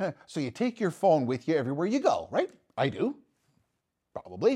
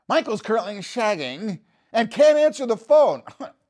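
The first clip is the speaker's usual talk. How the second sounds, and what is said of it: Austin Powers impression, British accent. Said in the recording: “let's customize the voice and the accent to a movie theme, like the Austin Powers movie theme ... Austin Powers answers it”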